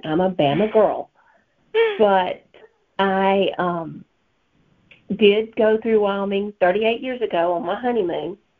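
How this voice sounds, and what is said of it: Thick Southern US accent. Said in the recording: “my thick Southern accent”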